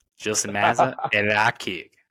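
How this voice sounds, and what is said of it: Put-on southern American accent. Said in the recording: “I'll do a little southern accent.”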